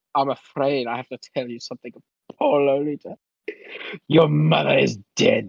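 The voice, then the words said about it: Classic villain voice. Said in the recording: “He sounds like a classic villain.”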